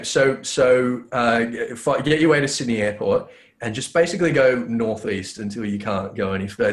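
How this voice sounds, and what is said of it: Fancy-sounding accent. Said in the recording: “the guy who speaks with the fancy accent”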